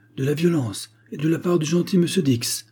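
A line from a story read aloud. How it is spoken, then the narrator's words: Exclaimed. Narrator (French): s'écria Bark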